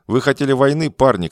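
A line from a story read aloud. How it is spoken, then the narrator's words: Shouting. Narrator (Russian): кричал он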